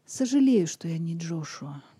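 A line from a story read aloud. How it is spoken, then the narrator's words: Quiet. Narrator (Russian): негромко сказал он вслед Лизе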